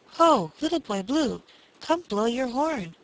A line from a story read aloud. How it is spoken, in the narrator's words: he cried